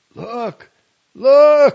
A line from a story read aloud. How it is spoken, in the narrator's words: shouted